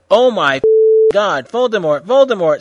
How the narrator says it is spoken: screamed Hedwig

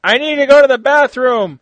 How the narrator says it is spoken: he cried out the driver's window

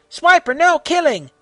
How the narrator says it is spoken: yelled

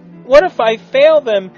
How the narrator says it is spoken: Timmy asked nervously

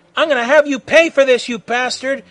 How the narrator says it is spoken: yelled Krillin, as he charged Freddy head-on

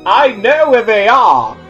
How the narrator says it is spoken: Harry shouted

